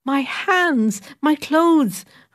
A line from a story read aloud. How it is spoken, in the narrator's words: cried